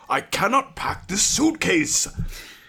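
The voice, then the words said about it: Good impression of character Clyden. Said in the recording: “That's a pretty good impression.”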